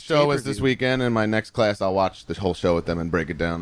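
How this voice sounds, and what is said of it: Long Island accent. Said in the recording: “I couldn't catch your Long Island accent. ... Long Island.”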